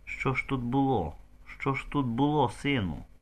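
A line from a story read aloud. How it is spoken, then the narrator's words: Whispering. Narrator (Ukrainian): шепотів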